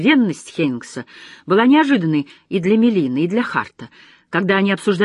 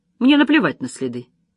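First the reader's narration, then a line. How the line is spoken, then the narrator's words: Cold reply. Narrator (Russian): холодно ответила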